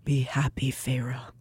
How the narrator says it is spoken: he said quietly

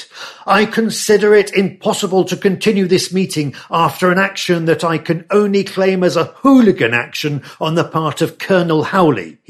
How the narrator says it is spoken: shouted

